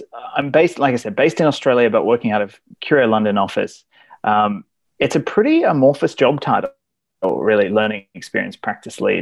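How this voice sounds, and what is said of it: Mixed, hard-to-place accent. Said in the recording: “my sort of mongrel accent”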